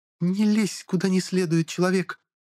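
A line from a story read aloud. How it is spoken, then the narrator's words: Furious hiss. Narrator (Russian): Разъяренно зашипела Альбиноска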